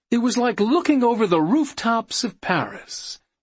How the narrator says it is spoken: DJ Jim Perry wistfully remembered

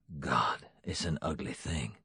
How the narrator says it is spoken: Jackson whispered

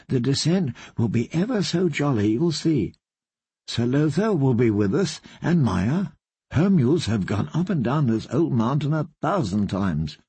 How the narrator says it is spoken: said gently

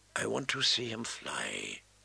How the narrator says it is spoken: a boy's voice whispered faintly in memory

